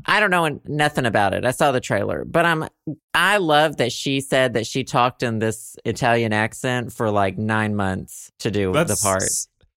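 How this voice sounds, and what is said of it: Put-on transatlantic accent. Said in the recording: “it's literally you right now with this transatlantic ... bullshit. ... Transatlantic.”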